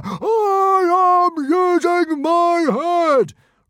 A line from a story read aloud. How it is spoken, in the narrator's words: roared Stoic the Vast